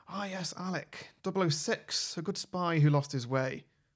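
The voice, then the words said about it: Scottish-accented impression of an actor. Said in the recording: “Pierce Brosnan doing a Sean Connery impression ... Not just doing a Scottish accent, doing Sean Connery.”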